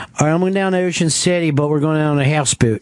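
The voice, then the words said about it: Exaggerated Philadelphia accent. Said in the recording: “Sounds Canadian. ... I didn't know that was an accent. ... Oh, in Philly?”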